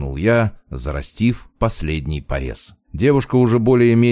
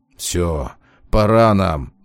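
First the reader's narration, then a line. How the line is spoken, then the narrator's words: Grumbling. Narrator (Russian): проворчал вампир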